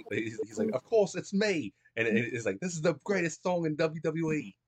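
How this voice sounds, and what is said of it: Put-on Australian accent. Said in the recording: “That's a pretty good Australian accent.”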